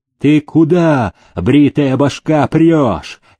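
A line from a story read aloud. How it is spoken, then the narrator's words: Angry shout. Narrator (Russian): сердито крикнул его селезень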